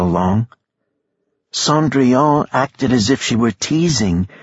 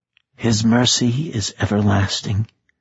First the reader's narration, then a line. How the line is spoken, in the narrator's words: Bahira said quietly